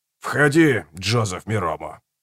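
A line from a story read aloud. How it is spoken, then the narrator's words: Hoarse distant voice. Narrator (Russian): произнес оттуда хриплый голос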